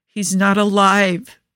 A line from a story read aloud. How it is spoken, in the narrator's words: Joe groans